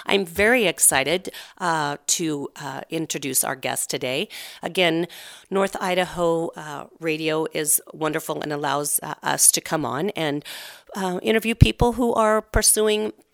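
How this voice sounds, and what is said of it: Nasally congested voice. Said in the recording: “you are getting a crazy nasally, my morning sexy voice, I suppose, voice ... I just have a good old-fashioned cold”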